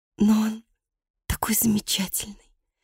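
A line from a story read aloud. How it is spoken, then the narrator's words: Defensive whisper. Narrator (Russian): защищаясь, прошептала Аннет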